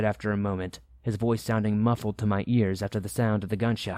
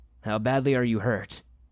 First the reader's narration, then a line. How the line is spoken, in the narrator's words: I asked him